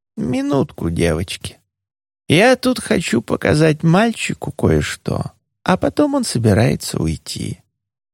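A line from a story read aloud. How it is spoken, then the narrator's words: Absent-minded tone. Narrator (Russian): моя тетушка тем же отсутствующим тоном сказала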